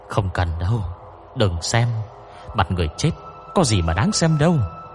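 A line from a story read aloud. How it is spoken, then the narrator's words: Frightened quick protest. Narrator (Vietnamese): Sách Ninh Nhi sợ hãi phản đối ngay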